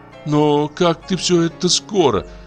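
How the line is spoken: Whiny mumble. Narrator (Russian): промычала она плаксивым голосом

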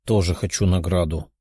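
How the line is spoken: Quiet speech. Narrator (Russian): тихо произнесла та

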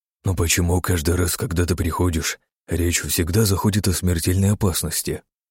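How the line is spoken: Quiet. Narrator (Russian): тихо произнес

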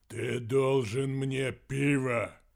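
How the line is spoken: Deep bass voice. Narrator (Russian): пробасил

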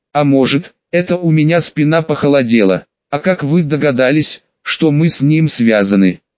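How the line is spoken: Plain. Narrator (Russian): спросил

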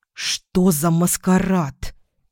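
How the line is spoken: Hissed. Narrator (Russian): прошипела я

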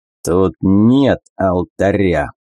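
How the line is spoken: Growl. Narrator (Russian): прорычал он

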